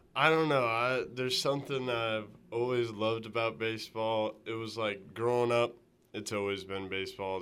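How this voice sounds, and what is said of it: Tennessee Southern US accent. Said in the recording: “from the Tennessee area ... it's great to hear that accent again”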